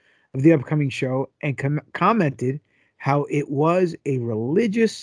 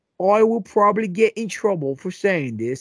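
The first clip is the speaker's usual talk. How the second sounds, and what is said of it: Put-on Australian accent. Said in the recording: “I don't know why I'm talking with an accent ... You're Australian now?”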